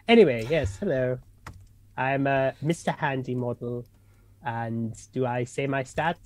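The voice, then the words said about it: Exaggerated put-on English accent. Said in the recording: “awful, total English accent”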